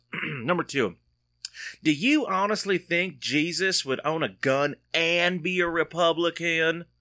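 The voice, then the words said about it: Put-on accent reading a bumper sticker. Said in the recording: “I think I might have to do the accent. You don't want to do the accent, but I think I might have to for this one”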